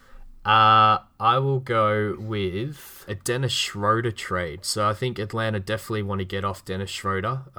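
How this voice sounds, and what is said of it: Australian accent. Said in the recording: “my Australian accent ... would definitely make me say crikey”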